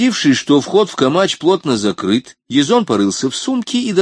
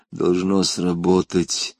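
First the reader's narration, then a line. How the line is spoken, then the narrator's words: Mutter. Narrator (Russian): пробормотал он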